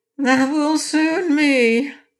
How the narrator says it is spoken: asserted the orc with a groan

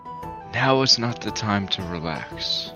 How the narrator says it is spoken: leans over and whispers in his ear

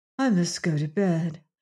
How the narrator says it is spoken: said Wana faintly

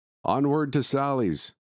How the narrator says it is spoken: Victor exclaimed

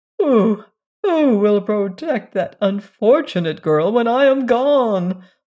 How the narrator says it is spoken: moaned Mrs

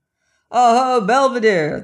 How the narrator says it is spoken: shouted

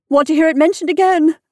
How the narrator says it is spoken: she cried dramatically

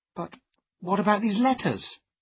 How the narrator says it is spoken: cried

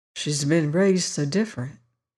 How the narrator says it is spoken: he murmured

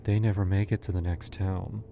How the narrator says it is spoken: she said, almost sadly

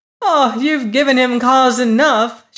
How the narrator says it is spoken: she cried

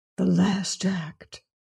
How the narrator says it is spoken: whispered Carrados

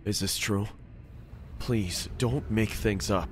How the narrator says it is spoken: He said in a fumbled voice

